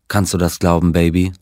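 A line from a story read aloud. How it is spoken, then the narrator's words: Plain. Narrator (German): sagte er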